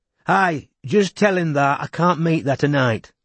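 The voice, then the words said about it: Thick Yorkshire accent. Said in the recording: “in a much thicker Yorkshire accent than usual”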